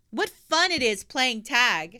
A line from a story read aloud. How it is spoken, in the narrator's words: shouted Pippi